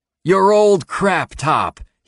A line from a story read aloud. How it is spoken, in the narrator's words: he exclaims